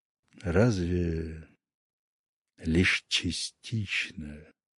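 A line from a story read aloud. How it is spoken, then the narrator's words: Sad, smiling. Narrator (Russian): грустно улыбнулся Гром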